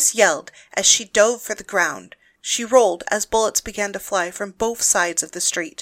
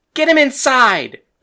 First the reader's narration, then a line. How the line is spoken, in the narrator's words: Paris yelled at the top of her lungs